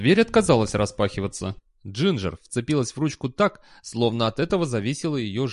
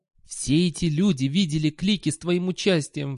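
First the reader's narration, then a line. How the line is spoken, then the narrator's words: Pleading. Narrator (Russian): взмолился Сол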